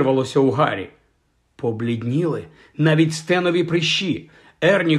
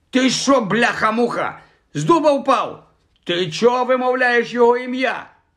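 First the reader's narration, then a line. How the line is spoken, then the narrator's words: Shouting. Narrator (Ukrainian): закричав Стен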